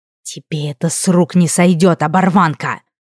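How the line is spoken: Hissed threat. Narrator (Russian): прошипел уже бывший патологоанатом

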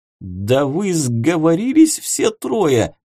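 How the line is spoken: Silent inner wail. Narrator (Russian): мысленно взвыл тот

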